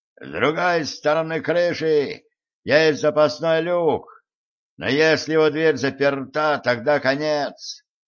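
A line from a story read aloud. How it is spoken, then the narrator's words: Shouting into ear. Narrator (Russian): Видаль прокричал мне в ухо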